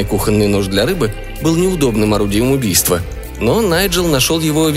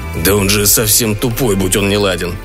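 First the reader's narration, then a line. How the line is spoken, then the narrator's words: Irritated grumble, dying breath. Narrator (Russian): раздраженно проворчал лорд Блэкхэт, испуская последний вздох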